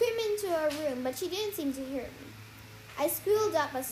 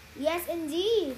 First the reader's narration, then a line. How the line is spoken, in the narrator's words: Cece said